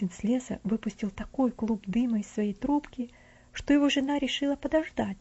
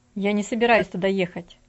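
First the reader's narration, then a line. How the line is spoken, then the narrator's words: Sharp. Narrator (Russian): резко ответил муж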